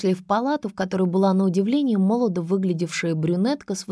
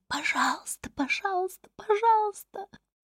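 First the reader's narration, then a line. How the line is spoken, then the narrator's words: Cracking, rustling cry. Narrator (Russian): кто-то сорвавшимся, шелестящим голосом кричит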